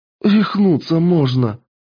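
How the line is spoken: Breathless exhale. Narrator (Russian): выдохнула Кристина

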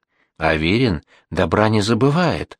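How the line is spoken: Half-voiced whisper. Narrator (Russian): Их более счастливый коллега шепнул в полголоса

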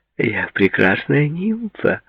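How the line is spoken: Cooing. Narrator (Russian): проворковала она

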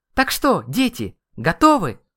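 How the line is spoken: Woman asking loudly. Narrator (Russian): Громко спросила дамочка

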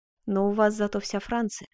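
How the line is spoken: Sighing. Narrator (Russian): вздохнул Карл

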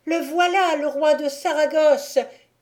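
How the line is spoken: Loudest shout. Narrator (French): crie de sa voix la plus forte

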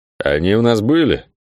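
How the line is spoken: Dull question, older man. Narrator (Russian): Глухо поинтересовался тот, что шел чуть левее, уже не молодой

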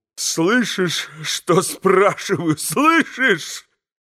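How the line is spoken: Faltering babble. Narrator (Russian): пролепетал, наконец, Митя, с искаженным от радости лицом прокричал ему

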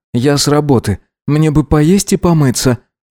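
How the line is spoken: Irritated sighing reply. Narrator (Russian): вздохнув, ответил Гидеон раздраженно

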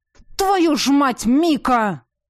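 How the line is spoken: Coarse roar. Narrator (Russian): взревел он, точно конюх какой-то

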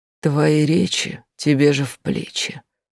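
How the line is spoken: Old person's whisper. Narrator (Russian): послышался старческий шепот

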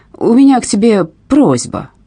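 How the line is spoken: Irritated. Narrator (Russian): Раздраженно он сказал

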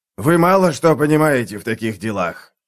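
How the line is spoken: Rasped. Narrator (Russian): прохрипел

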